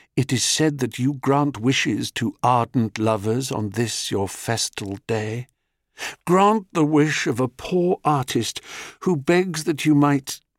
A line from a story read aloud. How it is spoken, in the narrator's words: he whispered